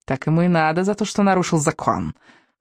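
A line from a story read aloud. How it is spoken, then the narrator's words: Angry snort. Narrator (Russian): Фыркнула гневица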